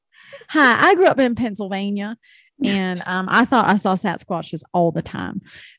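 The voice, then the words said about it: Put-on Southern US accent. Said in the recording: “I don't even know what that accent was. Like, it was more Southern. ... It was like Southern, deep South.”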